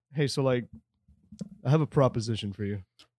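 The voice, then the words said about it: Deliberately deepened voice. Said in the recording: “Why did your voice get deeper? ... I wanted a D&D mode.”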